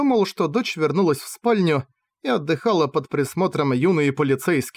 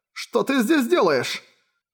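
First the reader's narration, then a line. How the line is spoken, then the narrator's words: Exclamation. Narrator (Russian): воскликнул Аркин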